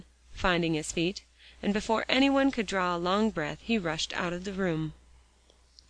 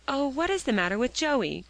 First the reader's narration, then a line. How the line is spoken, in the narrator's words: cried Phronsie